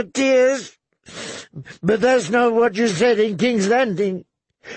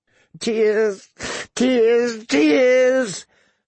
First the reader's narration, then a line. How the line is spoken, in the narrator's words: she sobbed hysterically